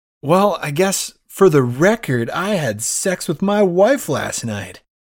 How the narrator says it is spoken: Undercuffler yells out

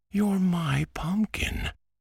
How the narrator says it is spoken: cried Antoine

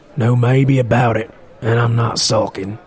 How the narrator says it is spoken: growled Morwell, clearly sulking

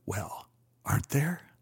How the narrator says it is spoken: Dietrich got a wild look in his eyes and whispered

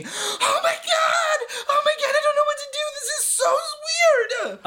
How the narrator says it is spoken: Seth is just screaming

